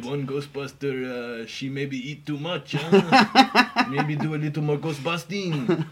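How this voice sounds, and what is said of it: Mock French accent drifting Mexican. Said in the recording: “I don't even know if that's a correct French accent. ... I turned Mexican again there.”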